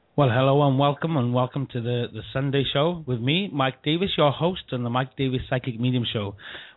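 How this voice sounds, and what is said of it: Slightly rough, not-quite-right voice. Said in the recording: “as you can hear, ladies and gentlemen, the cold is clearing ... My voice is still not quite right”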